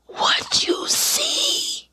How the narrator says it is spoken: stage whispered

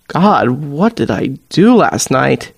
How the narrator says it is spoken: He groans

